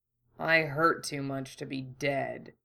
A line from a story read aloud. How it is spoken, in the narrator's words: he grumbled